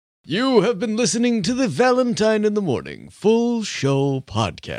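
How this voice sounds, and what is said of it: Exaggerated radio announcer voice. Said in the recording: “That's my radio voice.”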